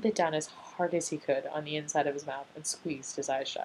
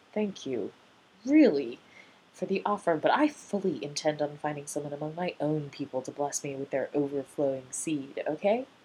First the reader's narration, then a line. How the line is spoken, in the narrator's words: Rodney broke in … to say through gritted teeth